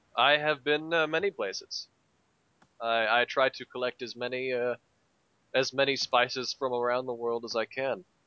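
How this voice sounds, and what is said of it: Accent from Cairo. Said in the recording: “I can't place that accent. Where is it from? ... Cairo, specifically.”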